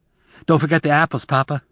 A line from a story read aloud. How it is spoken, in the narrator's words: Zek said anxiously